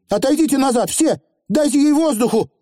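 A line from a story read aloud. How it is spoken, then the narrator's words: Shouted to a crowd. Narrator (Russian): крикнула столпившимся наверху людям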